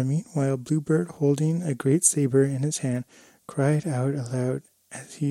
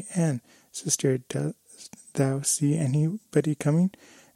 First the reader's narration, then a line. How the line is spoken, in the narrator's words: said his wife, and she began to cry out softly